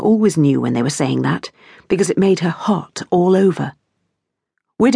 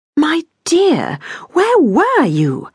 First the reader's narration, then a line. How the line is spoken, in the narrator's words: exclaimed Irene